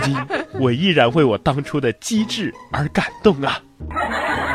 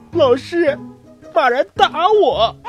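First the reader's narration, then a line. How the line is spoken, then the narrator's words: Crying. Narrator (Chinese): 他哭着对老师说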